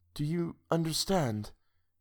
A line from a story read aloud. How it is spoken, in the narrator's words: She whispered